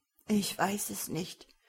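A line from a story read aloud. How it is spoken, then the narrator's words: Sad, near tears. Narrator (German): antwortete Numarak traurig und kämpfte gegen aufsteigende Tränen an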